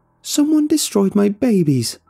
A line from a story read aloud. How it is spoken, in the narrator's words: she was wailing